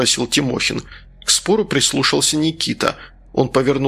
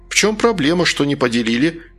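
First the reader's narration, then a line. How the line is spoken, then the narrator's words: Cheerful voice. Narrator (Russian): веселым голосом спросил Тимохин обоих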